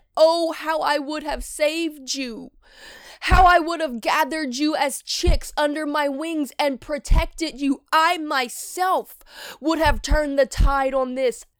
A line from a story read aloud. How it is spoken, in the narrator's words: he wept and he cried out and he said